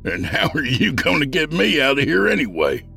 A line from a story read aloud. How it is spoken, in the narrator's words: He asked with a laugh